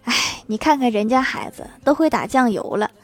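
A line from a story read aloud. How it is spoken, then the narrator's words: Mother sighing wistfully. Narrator (Chinese): 老妈突然感叹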